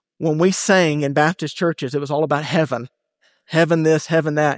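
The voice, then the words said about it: Southern US Bible Belt accent. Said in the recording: “I'm from the Bible Belt. You can probably tell it in my accent.”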